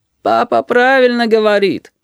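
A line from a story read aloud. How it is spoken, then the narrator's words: Sighed. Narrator (Russian): вздохнул Кир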